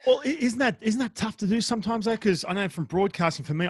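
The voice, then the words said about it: Australian accent. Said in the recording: “that Aussie accent ... I need to hide the Aussie accent”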